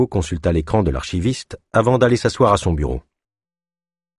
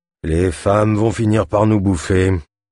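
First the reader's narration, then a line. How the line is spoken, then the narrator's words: Sighing. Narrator (French): soupira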